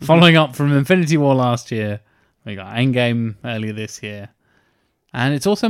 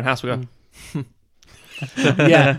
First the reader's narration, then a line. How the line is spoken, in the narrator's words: the internet laugh, which is just the exhale through the nose